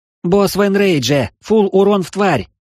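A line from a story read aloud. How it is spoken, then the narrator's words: Yelling. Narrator (Russian): заорала Анастария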